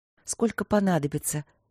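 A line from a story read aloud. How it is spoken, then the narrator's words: Soft. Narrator (Russian): мягко проговорила Василина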